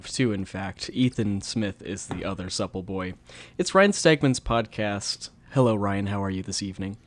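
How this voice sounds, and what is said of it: Calm public-radio announcer voice. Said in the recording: “do this fucking NPR voice thing”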